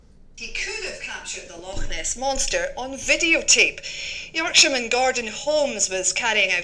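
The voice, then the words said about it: Scottish accent. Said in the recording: “A Scottish accent.”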